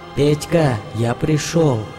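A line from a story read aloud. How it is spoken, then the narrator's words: Ringing shout. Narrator (Russian): кричит тварь звонким голосом Жени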